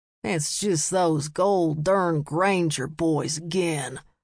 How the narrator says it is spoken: a man grumbled

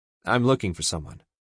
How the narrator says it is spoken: I said flatly

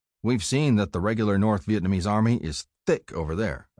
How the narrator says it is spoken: I said

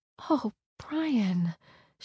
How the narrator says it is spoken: gasped in horror

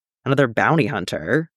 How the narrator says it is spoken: Jax asks, unimpressed

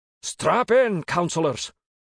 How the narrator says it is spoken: Iltekhanov shouted

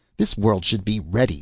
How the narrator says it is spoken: snapped Sean O'Donohue accusingly

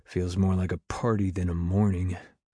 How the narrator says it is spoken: muttered quietly

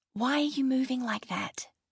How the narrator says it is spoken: Brooke hissed at me

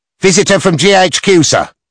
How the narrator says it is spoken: called out the orderly

